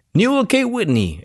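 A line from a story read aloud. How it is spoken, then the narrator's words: Exclaiming. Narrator (Spanish): exclamó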